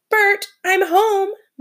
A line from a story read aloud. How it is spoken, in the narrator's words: Miss Brisbane called out